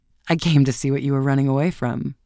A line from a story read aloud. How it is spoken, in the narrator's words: he laughed ... and answered